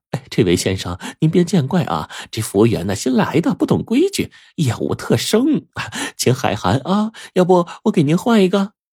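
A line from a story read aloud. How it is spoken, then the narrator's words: Ingratiating, apologetic. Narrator (Chinese): 陪着笑脸走到胡建的面前，弓着腰说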